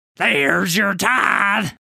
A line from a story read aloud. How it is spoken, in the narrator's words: yells